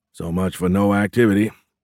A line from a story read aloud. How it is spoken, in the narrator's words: Dwyer said with a grunt